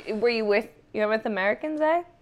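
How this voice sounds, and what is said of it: Put-on Icelandic accent, Canadian-sounding. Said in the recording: “that was my Icelandic accent with ever never hearing somebody speak ... It sounds like Canadian a little bit”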